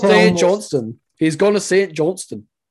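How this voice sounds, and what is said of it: Put-on Scottish accent. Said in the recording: “in a Scottish accent ... I need to hear a Scottish accent ... That's not bad.”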